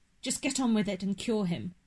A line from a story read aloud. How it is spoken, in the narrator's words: I snapped